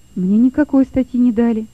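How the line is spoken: Quiet reply. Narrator (Russian): тихо ответил Лёва

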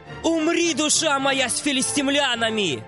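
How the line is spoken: Shouted. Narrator (Russian): крикнул

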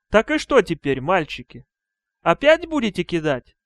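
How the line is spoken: Plain. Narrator (Russian): спросила Бетси

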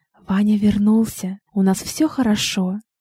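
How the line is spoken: Whisper. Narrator (Russian): она шепнула

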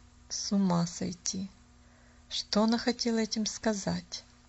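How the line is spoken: Muttered. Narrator (Russian): пробормотала мисс Сноу

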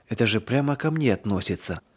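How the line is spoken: Whisper. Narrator (Russian): прошептала она

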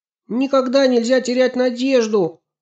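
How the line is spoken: Shout. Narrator (Russian): крикнула Аня

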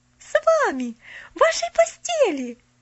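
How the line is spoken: Breathless delighted exclamation. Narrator (Russian): Захлебываясь от восторга, воскликнула Поллианна

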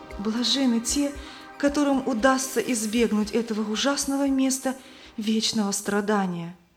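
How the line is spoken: Frightened trembling voice. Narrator (Russian): Она побледнела и дрожащим голосом сказала

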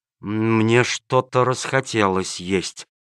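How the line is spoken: Stunned muttering, swallowing. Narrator (Russian): пробормотал начальник полиции, глотая слюну и понемногу приходя в себя от изумления

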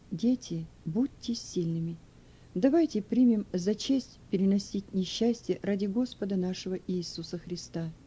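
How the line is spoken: Moved elderly woman's soft whisper. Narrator (Russian): Старая женщина была тронута теплым отношением к ней со стороны своей семьи и тихо прошептала

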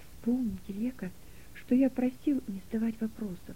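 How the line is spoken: Whispered in ear. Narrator (Russian): прошептал он ей на ухо

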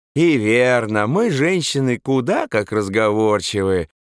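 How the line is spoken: Sing-song, playful, silly. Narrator (Russian): Вдруг не к месту певучим голосом сказала парикмахерша, игриво и весьма глупо улыбаясь

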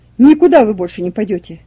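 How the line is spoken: Shouting again. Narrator (Russian): опять закричал Николай Васильевич

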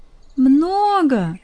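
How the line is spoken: Exclaiming. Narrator (Russian): Воскликнула Юля

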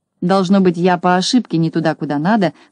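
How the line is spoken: Annoyed grumble. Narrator (Russian): с досадой проворчал Скуперфильд

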